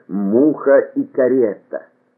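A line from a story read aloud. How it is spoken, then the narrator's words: Slow, stunned. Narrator (Russian): медленно потрясенный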